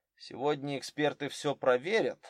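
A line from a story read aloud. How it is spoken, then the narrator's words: Gloomy reminder. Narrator (Russian): мрачно напомнил Дронго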